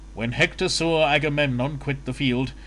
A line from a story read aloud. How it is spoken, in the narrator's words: he shouted to the Trojans and the Lycians, saying